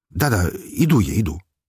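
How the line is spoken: Hurried reply. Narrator (Russian): торопливо отозвался я

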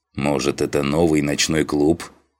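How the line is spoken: Snort. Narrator (Russian): хмыкнул Дженнифер

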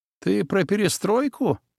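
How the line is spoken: Nasty laughter. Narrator (Russian): тот мерзко рассмеялся

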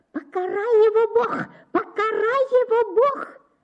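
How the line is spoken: Loud shrieking woman. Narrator (Russian): визжала тетка на весь дом

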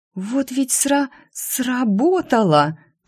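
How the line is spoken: Half-whispered exclamation. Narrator (Russian): полушепотом воскликнула

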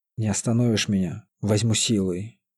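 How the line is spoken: Hoarse rasp. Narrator (Russian): прохрипел Владилен

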